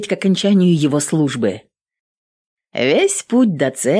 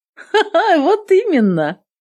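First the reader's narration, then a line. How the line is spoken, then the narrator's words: Laughing. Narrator (Russian): Снова засмеялась Кассия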